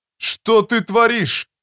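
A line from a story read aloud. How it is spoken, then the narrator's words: Yelled after someone. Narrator (Russian): завопил мне вслед Бегунди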